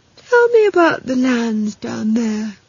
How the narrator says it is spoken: said lazily

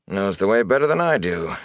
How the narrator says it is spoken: he chuckled

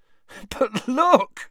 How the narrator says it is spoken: said Ron, laughing

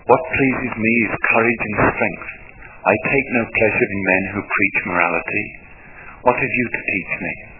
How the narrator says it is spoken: The king coughed and said fiercely

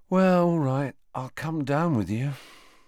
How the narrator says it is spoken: sighed Ron

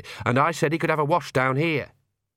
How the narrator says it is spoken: said Agnes sharply

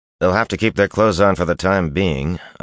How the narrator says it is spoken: Iteralda replied dryly

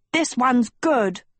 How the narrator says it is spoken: Hort yelled

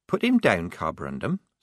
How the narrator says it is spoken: said Polly, gently

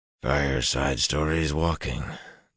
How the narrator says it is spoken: Galen muttered

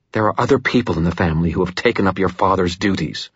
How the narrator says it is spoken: Mother Murphy said, her voice bitter

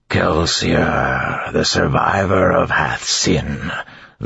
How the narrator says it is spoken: the creature said in a grinding voice

